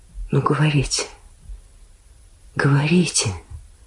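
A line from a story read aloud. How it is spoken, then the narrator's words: Cautious whisper. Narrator (Russian): шепнул наконец Шахов, убедившись, что Еворский опять заснул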